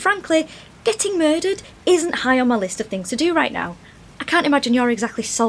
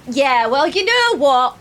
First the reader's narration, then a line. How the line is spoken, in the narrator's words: She shouted over her shoulder